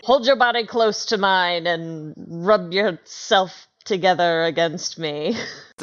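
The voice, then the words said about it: Character voice. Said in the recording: “get a character voice”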